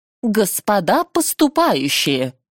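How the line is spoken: Loud. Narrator (Russian): громко проговорила она

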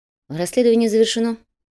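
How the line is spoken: Calm report. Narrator (Russian): спокойно сообщил дознаватель

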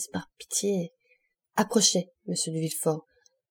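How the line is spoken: Murmured. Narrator (French): murmura le ministre

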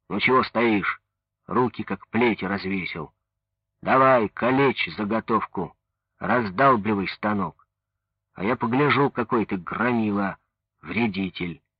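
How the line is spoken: Sudden rough shout. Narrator (Russian): Вдруг прикрикнул грубо

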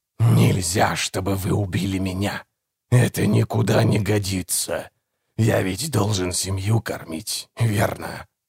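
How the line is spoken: Hoarse rasp. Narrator (Russian): прохрипел незнакомец

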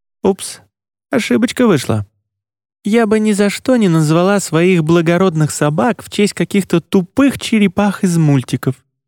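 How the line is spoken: Grumbling. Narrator (Russian): проворчала Марица

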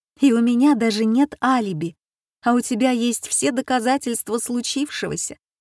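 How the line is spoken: Laughing speech. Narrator (Russian): сказала она сквозь смех

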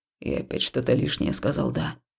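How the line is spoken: Puzzled mutter. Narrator (Russian): озадаченно пробормотал он

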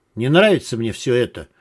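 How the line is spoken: Gloomy. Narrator (Russian): мрачно сказала Клава

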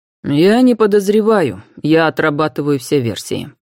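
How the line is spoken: Plain. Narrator (Russian): ответил Роберт

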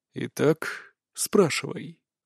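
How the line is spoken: Calm offer. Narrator (Russian): спокойным голосом предложил

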